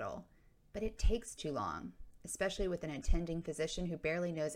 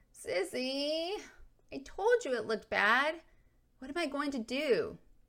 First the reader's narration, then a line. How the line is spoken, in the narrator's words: Adrian wailed